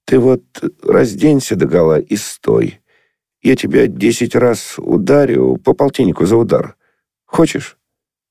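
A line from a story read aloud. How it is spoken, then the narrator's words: Trembling, choked, nasty laughter. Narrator (Russian): Он смеялся, и смех у него был дрожащий, придушенный и гадкий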